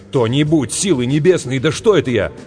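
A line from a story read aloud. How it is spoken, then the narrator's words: Sudden shout. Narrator (Russian): вдруг крикнул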